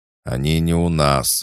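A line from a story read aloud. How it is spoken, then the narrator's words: Growled. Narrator (Russian): рыкнул Батист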